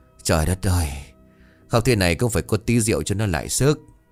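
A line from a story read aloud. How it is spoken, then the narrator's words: Mumbled. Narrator (Vietnamese): miệng lẩm bẩm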